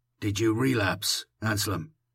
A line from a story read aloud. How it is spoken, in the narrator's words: I asked softly